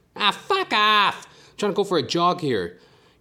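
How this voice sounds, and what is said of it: Imitates another person's voice. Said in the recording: “I sound like my mother's ex-boyfriend.”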